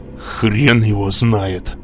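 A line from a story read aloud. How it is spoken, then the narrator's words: Growled. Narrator (Russian): прорычал Гроснер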